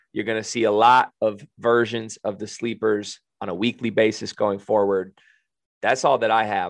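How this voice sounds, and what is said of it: Raspy voice. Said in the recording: “my voice sounds raspy”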